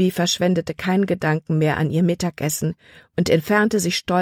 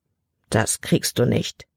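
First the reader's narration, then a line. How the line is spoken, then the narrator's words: Murmured. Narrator (German): murmelte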